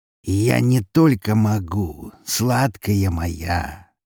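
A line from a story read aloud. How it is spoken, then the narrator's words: Slow speech. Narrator (Russian): медленно произнес он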